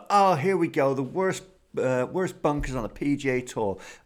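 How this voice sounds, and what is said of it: Put-on American accent. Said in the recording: “Amazing American accent there.”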